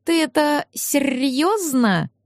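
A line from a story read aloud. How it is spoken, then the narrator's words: Delayed drawl. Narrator (Russian): С небольшим опозданием протянул Ларс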